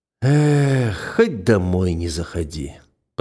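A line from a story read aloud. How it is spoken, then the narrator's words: Upset muttering. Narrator (Russian): пробормотал Кузьма, расстроенный тем, что приятный запах на руках пропал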